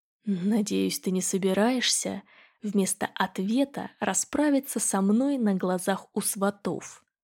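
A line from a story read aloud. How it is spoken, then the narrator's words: Quiet private question. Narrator (Russian): Поинтересовался негромко, так, чтобы слышала только я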